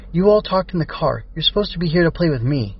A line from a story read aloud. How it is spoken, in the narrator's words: Cat responded sharply